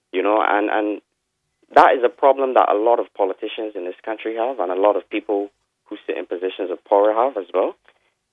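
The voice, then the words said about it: Upset, emotional voice. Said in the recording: “as you can hear from my voice, this is very upsetting to me”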